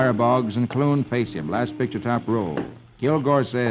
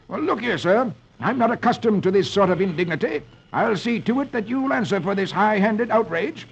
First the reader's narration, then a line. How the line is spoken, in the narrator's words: Squire Boggs exclaims